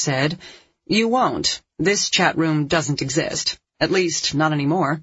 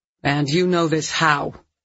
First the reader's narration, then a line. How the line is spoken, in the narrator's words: Phil asked sharply